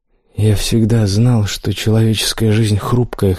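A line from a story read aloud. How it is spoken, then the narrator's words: Hoarse. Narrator (Russian): хрипло отозвался он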